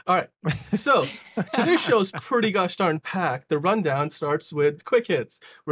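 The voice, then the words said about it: Slightly out of breath. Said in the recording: “I'm almost out of breath here”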